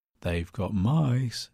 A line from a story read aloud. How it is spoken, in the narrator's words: said the Doctor in an equally melodic tone